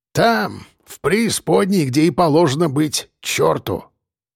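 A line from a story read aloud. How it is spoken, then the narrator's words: Old man's snort. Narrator (Russian): Хмыкнул дед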